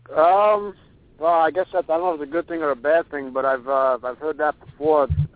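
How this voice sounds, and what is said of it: New York accent. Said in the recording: “You've got the accent, though. You could have told us you were right from downtown, and we would have believed it... she used to make fun of my accent all the time... everybody talks the way that I do”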